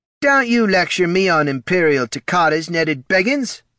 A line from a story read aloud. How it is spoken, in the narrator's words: snapped the lieutenant